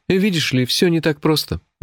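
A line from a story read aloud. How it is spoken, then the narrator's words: Sighing. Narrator (Russian): вздохнул он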